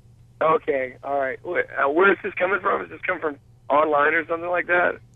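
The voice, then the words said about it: Hoarse, strained voice. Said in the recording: “I'm hoarse. Can't you tell? My voice is barely there already.”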